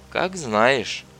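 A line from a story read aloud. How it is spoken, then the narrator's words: Sighing. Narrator (Russian): Татьяна вздохнула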